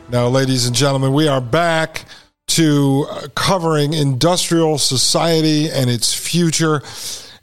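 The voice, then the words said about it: Hoarse, fading voice. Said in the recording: “I'm losing my voice here in Poland ... I'll leave my voice in Poland”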